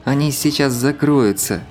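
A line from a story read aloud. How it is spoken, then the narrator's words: Moaning. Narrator (Russian): простонала Лада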